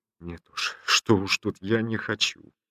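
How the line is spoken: Choked voice near sobbing. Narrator (Russian): Едва удерживаясь от рыданий, он ответил обрывающимся, задушенным голосом обиженного ребенка

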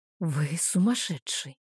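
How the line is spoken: Whispered. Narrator (Russian): прошептала я

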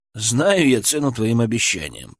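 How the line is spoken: Grumbled. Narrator (Russian): проворчал Денис

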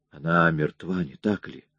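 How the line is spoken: Whisper. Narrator (Russian): послышался шепот Рэнди

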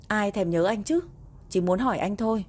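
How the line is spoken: Loud retort. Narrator (Vietnamese): lớn tiếng phản bác

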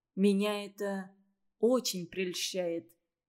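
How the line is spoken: Slow. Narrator (Russian): медленно заговорил Тавров

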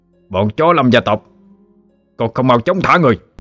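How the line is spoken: Shout. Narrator (Vietnamese): Người bên cạnh lập tức quát lên

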